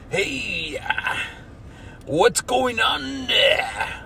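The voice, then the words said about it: Tough guy voice. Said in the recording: “so a tough guy sounds like this.”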